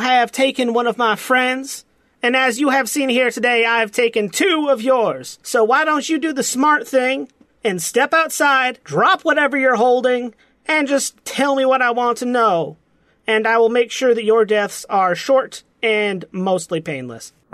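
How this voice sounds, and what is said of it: Put-on Southern accent. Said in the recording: “coming up with a southern accent”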